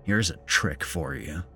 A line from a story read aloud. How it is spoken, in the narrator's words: muttered